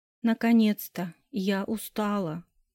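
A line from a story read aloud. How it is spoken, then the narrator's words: Yawning tired female moan. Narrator (Russian): зевнула и простонала Майя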